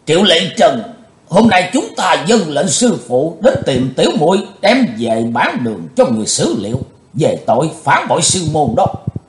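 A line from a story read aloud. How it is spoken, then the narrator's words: Loud. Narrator (Vietnamese): sứ giả Hải Âu lớn tiếng nói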